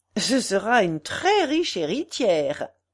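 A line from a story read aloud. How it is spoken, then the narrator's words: Laughing. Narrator (French): dit en riant Cardot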